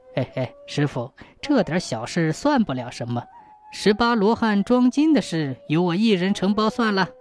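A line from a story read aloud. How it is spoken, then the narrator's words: Whispered in ear. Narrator (Chinese): 那个疯疯癫癫的祭奠和尚 贴着老方丈的耳朵轻声说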